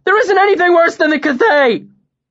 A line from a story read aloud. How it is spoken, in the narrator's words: Bast shouted